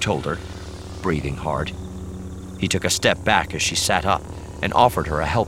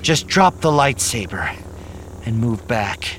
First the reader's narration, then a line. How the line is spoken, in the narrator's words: panted